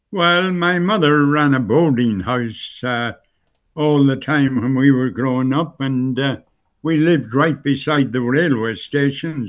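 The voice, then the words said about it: Irish Donegal accent. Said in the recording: “you've retained your accent almost entirely ... There's a specific Bundoran sort of Ballyshannon accent that we have, and you certainly have retained that.”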